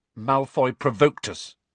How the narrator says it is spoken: said Harry stiffly

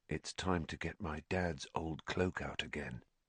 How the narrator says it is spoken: said Harry, more quietly still

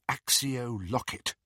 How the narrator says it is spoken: murmured

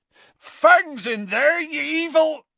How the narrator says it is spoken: Hagrid bellowed

